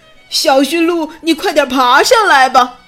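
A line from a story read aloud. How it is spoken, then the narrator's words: Shouting. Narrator (Chinese): 雪宝喊道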